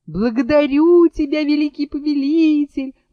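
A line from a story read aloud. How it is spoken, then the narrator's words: Loud wailing. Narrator (Russian): вопил Абдул-Надул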